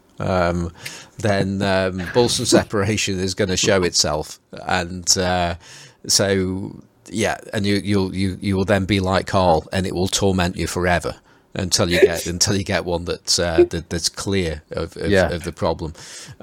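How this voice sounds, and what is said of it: Stoke-on-Trent English accent. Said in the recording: “It's going to be my Stoke accent.”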